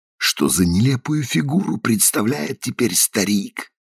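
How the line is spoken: Whisper. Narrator (Russian): шепнул он Гефсибе

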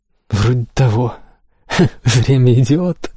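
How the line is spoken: Laughing. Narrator (Russian): засмеялась Лиселотте

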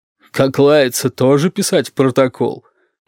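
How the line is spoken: Gloating bass question. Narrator (Russian): злорадным басом спросила Розалия

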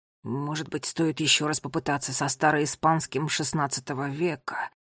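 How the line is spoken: Mumbling. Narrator (Russian): Бормотал он

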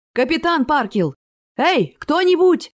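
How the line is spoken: Frantic yelling. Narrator (Russian): неистово заорал Голов

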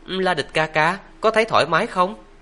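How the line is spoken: Smiling question. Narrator (Vietnamese): Lộ Thiến mỉm cười hỏi

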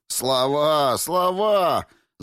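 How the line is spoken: Crowd shouting. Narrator (Russian): закричали в передних рядах

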